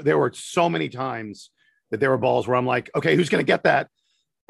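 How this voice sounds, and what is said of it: Strained, worn-out voice. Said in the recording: “my voice is awful because I was screaming so much yesterday.”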